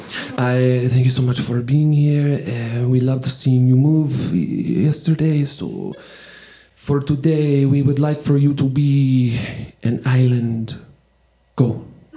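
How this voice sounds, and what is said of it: Poor put-on French accent. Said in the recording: “my French accent is horrible”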